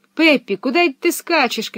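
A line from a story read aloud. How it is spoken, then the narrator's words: Shouting after her. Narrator (Russian): кричали они ей вслед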